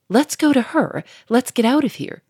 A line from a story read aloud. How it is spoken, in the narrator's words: cried Victor more anxiously